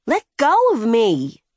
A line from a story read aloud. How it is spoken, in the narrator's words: Ren yelled, actively fighting